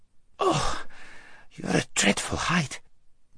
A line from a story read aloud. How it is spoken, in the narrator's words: gasped Shasta after his first and unsuccessful attempt